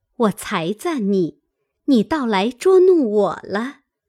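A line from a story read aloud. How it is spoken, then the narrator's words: Laughing. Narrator (Chinese): 宝钗笑道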